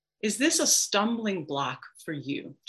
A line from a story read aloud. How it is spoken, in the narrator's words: Jesus asks